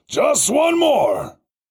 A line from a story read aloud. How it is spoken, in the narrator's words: the driver hollered